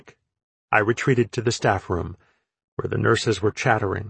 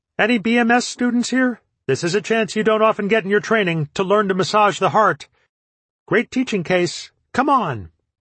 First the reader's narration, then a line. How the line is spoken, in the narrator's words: I heard Joe yell out with crisp authority